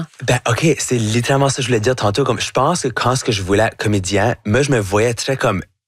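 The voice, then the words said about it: Acadian French accent. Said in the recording (French): “votre accent acadien ... j'ai un accent qui va jamais être neutre”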